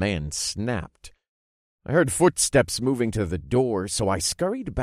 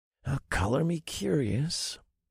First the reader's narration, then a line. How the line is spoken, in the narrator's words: I murmured